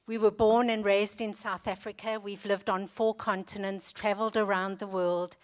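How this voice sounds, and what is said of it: Non-British accent. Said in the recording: “you can hear from my accent that I'm not British”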